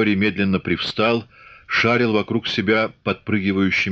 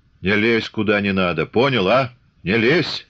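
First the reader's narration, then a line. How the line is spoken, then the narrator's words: Stern repetition. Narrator (Russian): строго повторил Чубатый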